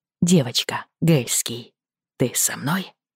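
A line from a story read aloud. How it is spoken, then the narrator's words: Whisper. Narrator (Russian): прошептал он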